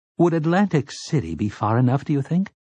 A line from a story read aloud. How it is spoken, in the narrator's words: Tower asked timidly